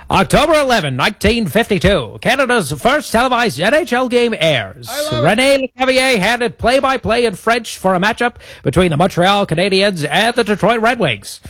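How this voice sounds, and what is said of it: Old-timey radio announcer voice. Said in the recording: “your old-timey radio voice ... the old-timey radio voice ... do the next bit in the old-timey radio voice”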